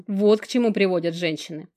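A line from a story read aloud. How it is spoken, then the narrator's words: Summing up. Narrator (Russian): подытожил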